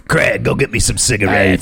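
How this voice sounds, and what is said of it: Raspy New York woman's voice. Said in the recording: “she sounds like a raspy cigarette chain-smoking woman from New York ... Sounds like Harvey Firestein ... That hurt my throat.”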